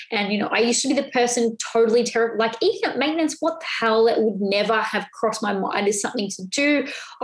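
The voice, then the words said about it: Excited, animated speaking voice. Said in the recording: “you can probably hear the excitement in my voice”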